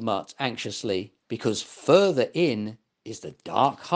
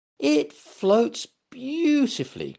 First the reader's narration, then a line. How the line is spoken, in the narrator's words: cried Get up